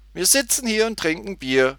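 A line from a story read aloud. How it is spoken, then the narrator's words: Laughing repetition. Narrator (German): wiederholte Tutti lachend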